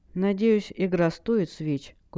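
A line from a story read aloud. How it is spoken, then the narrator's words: Sad question. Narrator (Russian): грустно спросила Хелл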